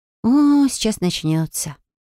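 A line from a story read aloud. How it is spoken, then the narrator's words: Sigh. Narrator (Russian): вздохнула Фелия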